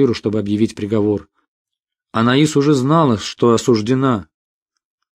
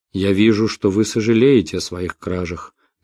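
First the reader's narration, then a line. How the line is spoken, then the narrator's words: Gentle. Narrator (Russian): мягко сказал он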